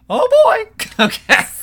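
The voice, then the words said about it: Mickey Mouse cartoon character voice. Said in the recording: “That was my Mickey Mouse impression.”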